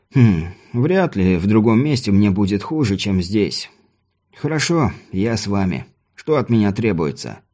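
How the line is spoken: Plain. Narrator (Russian): Я уже сказал

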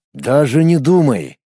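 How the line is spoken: Rough, abrupt interruption. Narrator (Russian): грубо прервал, неожиданно переходя на

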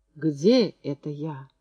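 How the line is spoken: Hoarse croak. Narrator (Russian): прохрипел он

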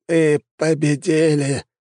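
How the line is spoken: Hoarse wheeze. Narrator (Russian): прохрипел он

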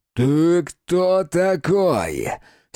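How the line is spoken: Hateful hoarse wheeze. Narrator (Russian): с ненавистью прохрипел коп

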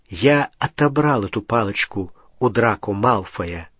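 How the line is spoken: Plain. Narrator (Russian): сказал Гарри

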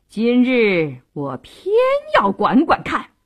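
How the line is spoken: Defiant cold laugh. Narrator (Chinese): 杜世清一点也不示弱，冷笑一声

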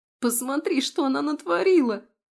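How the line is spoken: Sobbing. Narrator (Russian): Рыдания поверженной любовницы

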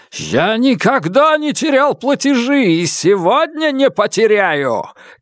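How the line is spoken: Shouting. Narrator (Russian): крикнул он в лицо Нелит

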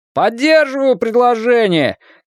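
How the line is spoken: Shout from the back. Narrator (Russian): крикнул кто-то из задних рядов

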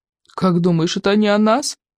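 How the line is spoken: Sobbing fish child. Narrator (Russian): всхлипнул рыбьенок

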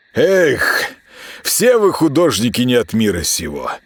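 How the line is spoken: Annoyed sigh. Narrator (Russian): С досадой вздохнул Роман

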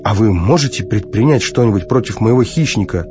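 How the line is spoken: Plain. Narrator (Russian): спросил Кармоди

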